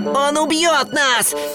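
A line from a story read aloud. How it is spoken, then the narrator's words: Shout. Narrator (Russian): закричал Уорд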